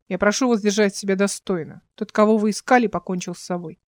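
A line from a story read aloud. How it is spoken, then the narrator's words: Stern commanding tone. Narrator (Russian): Один из зацеплений Димона, сказал суровым приказным тоном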